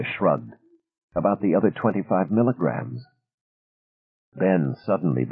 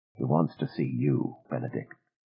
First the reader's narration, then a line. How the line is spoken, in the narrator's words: She said very quietly